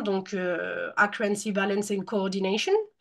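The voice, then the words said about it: Natural-sounding English accent. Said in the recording (French): “j'ai pas travaillé mon accent pour, mais j'aurais pu. mais non, j'ai juste eu la chance de vivre à l'étranger”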